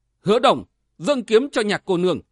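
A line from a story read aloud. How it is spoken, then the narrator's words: Deep stern command. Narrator (Vietnamese): nghiêm mặt trầm giọng quát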